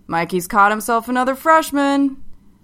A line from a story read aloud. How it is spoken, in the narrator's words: one of his teammates holler into the living room